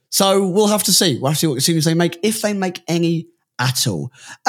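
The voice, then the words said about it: Tired, slightly hoarse voice. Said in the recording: “out of breath, I'm a bit tired ... I am hungover ... bit hoarse as well from the singing”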